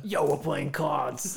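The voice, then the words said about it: Bad put-on New York accent. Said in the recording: “It was a horrible New York accent. ... It was better than mine.”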